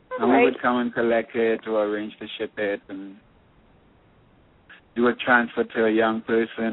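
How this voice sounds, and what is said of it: Musical foreign accent. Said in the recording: “your accent is beautiful. You speak very, very well. It's like music”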